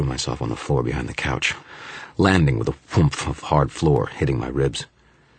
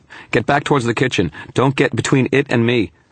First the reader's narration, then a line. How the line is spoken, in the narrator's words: shouted